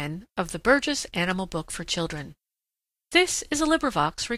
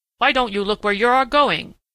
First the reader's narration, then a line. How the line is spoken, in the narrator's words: grunted Prickly Porky